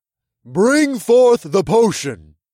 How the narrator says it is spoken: Amon boomed

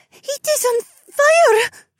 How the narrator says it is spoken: She spluttered

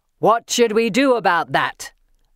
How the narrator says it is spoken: the centaur asks, rage snarling around his words

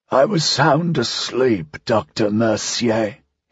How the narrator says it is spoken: he said, his voice still a painful croak

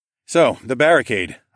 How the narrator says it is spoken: I loudly announced

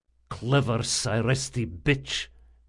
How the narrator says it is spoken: muttered Rodanov

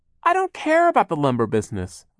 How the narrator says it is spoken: Violet cried

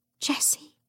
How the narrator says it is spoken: Lucy whispered

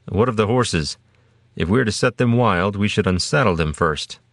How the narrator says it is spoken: Arbret asked

